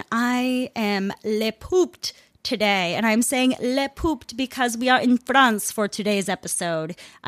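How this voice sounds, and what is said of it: Put-on mock French accent. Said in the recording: “I don't know what kind of accent that was. I apologize.”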